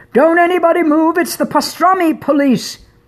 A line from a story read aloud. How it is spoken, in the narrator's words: Carlo shouted